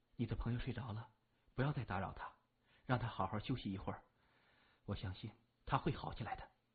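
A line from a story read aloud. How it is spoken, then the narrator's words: Nurse speaking softly. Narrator (Chinese): 门口的护士轻声说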